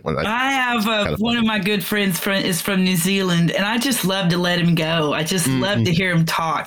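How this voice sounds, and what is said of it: Texan accent. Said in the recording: “I'm a Texan, so we definitely have an accent”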